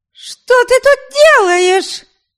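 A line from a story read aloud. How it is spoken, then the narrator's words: Shrill question. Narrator (Russian): Визгриво спросила Ами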